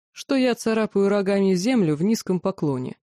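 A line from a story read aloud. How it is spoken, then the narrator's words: Snorting hmph. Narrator (Russian): Сахарель хмыкнул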